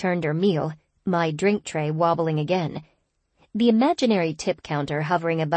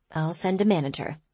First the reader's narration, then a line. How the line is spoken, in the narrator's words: I muttered